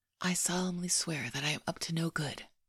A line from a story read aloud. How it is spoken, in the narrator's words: Harry whispered